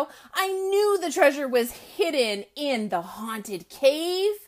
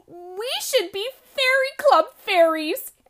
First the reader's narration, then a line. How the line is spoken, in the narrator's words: Emma squealed